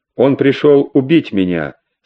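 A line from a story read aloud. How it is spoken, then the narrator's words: Calm reply. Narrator (Russian): спокойно ответила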